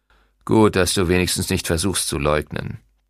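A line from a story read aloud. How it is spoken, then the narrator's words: Grumbling. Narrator (German): brummte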